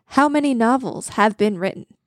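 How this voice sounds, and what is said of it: Game show announcer voice. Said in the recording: “weird game show announcer voice”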